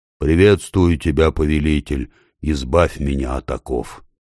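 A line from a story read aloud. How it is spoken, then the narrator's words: Deep bass voice. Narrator (Russian): Голова пробасила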